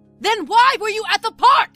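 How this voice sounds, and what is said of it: Raised, angry voice. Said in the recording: “raising my voice.”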